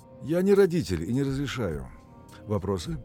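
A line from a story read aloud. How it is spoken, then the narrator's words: Plain. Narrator (Russian): Я спросил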